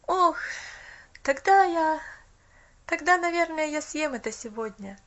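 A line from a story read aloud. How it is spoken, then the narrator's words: Sighing. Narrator (Russian): Вздохнул мальчик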